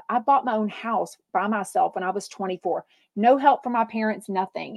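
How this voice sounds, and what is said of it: Thick regional American accent. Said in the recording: “as a Midwesterner, your accent is thick”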